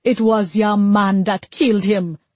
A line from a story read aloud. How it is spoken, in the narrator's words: spat